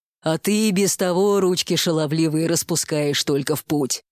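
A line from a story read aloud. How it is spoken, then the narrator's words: Displeased grumbling. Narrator (Russian): недовольно проворчал Минотавр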